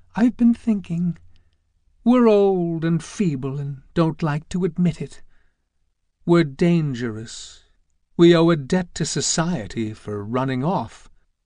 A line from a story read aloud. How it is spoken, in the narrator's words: Fern looked sadly over at Roberta and said